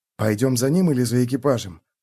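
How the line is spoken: Whispered. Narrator (Russian): прошептал Феликс

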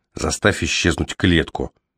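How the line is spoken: Very quiet, private. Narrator (Russian): предложил Кол так тихо, чтобы больше его никто не услышал

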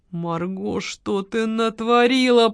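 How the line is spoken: Groaning. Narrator (Russian): простонал Георгий

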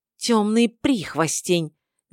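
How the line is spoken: Sudden angry hiss. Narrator (Russian): неожиданно зло прошипела названная Аматой

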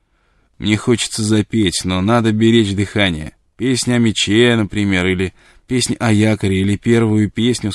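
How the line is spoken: Plain. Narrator (Russian): сказал Корлис

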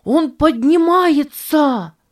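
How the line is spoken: Excited shout. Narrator (Russian): взволнованно закричал Ричард

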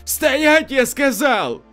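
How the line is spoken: Frightened shout. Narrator (Russian): Матрос испуганно выкрикнул

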